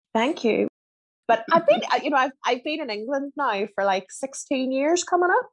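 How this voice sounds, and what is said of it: Refined Northern Irish accent. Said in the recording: “got a lovely accent ... It's from Northern Ireland ... there's a refinement there going on ... They say that I sound posh”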